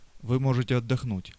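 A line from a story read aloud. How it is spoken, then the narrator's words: Plain. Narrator (Russian): сказал Тонио шоферу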